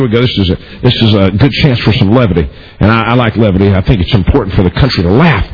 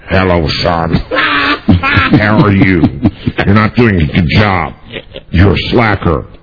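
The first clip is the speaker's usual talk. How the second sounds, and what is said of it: Imitates another person's voice. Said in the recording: “You do a killer impression of your mom ... you do a good impression of your mom ... my impression of my mother”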